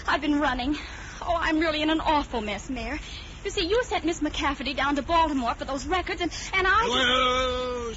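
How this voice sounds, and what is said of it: Breathless woman's voice. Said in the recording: “you're all out of breath.”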